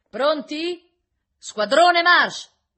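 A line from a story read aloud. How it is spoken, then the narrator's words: Officer shouting. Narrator (Italian): gridò l'ufficiale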